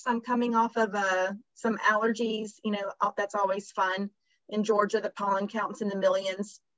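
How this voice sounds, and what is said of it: Slightly hoarse voice. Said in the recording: “my voice being maybe a little hoarse”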